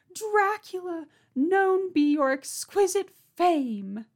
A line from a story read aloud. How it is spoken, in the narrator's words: she screamed his name